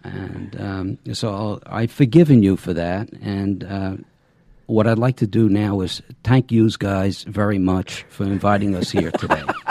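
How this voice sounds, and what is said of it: Northern US accent. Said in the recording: “us Northerners having a funny accent”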